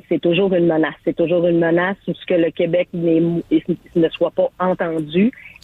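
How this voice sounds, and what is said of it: Saguenay Quebec French accent. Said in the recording (French): “si vous veniez du Saguenay, mais dans votre accent, on l'a reconnu tout de suite”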